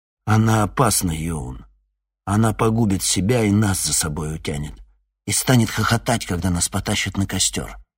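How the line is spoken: Quiet. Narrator (Russian): Пьетюр тихо произнес

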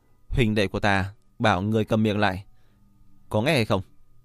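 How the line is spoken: Cold. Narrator (Vietnamese): Diệp Viễn lạnh lùng nói

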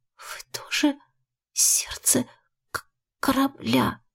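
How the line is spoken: Barely audible question. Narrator (Russian): спросила еле слышно

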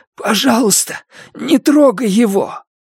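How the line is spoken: Hoarse rasp. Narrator (Russian): я прохрипел

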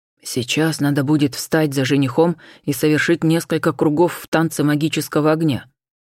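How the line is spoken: Quick close whisper. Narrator (Russian): быстро зашептал Анхель, чуть наклоняясь ко мне

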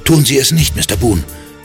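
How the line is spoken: Sudden call. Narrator (German): rief Cal plötzlich

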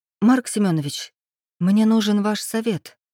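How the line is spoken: Hesitant woman. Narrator (Russian): неуверенно начала она

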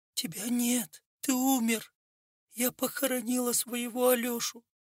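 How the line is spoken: Forced out with difficulty. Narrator (Russian): с трудом выдавила из себя Маклевич

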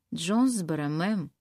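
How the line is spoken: Plain. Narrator (Russian): сказал кондуктор

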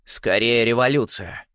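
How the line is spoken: Grim remark. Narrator (Russian): мрачно заметил Ригель

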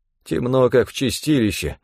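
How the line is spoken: Grumbling. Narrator (Russian): проворчал один из них

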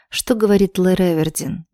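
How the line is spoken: Lifeless voice. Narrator (Russian): безжизненным голосом спросила

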